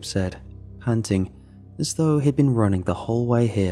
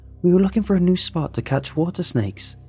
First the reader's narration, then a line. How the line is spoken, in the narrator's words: Trevor yelled out